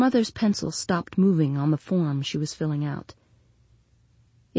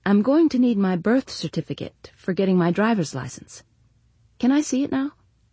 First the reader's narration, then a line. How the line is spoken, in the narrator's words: said Janie, keeping her voice light